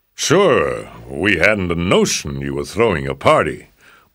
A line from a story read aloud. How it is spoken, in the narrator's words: boomed Rex